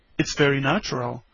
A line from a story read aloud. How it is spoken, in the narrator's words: said the doctor